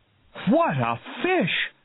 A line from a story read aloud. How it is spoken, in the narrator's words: cried Hooper